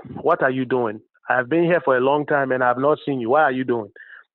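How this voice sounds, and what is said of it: Imitated Nigerian accent. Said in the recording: “if you were to hear a Nigerian or a Ghanaian speak ... That's more of the Nigerian accent.”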